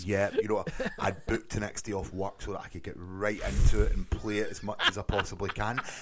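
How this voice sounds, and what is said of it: Thick regional accent. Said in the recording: “for those of our American listeners who can't understand ... Apparently our accents are too thick.”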